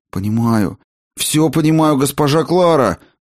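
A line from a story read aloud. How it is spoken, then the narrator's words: Wretched priest's moan. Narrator (Russian): Простонал несчастный патер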